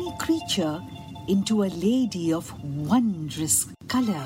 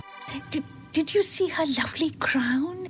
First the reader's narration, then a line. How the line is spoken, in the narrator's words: It whispered to them